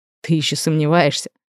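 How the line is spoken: Muffled snort. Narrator (Russian): Он хмыкнул мне в волосы

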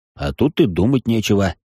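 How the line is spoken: Snorting, magician. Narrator (Russian): хмыкнул маг

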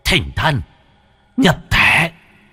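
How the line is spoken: Muttering then hissing chant. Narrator (Vietnamese): miệng lẩm bẩm rồi rít lên

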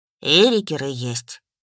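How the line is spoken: Sighing. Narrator (Russian): вздохнул Лааш

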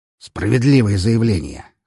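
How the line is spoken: Snorting. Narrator (Russian): хмыкнул Распутин

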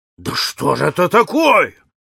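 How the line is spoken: Exclaimed. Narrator (Russian): воскликнул полковник Проктор

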